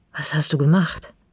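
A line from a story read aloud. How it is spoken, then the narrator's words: Hoarse question. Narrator (German): frage ich heiser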